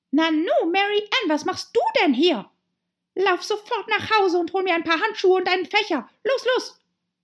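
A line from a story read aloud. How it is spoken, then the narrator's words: Angry call. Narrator (German): rief ihr zornig zu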